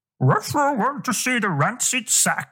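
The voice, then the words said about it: Scooby-Doo impression. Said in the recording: “I want your best Scooby-Doo impression.”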